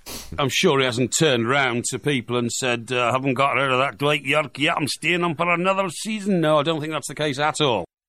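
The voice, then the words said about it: Bad put-on Scottish accent. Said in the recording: “the quality of his impressions ... That was for Alex Ferguson he was doing then. It's great, wasn't it? Brilliant. Just a central casting, bad Scottish accent.”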